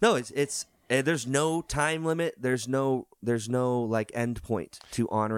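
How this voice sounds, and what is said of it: Usual voice. Nothing is said of it.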